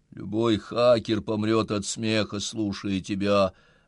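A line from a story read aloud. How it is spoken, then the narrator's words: Wooden voice. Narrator (Russian): говорю я деревянным голосом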